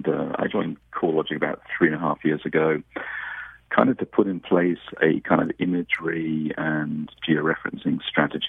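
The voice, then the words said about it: English British accent. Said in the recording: “I have a bit of an accent as well. So I'm originally from the United Kingdom, from England, and was educated in Scotland.”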